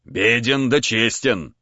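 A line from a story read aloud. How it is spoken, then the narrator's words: Hoarse bass voice. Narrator (Russian): хриплый бас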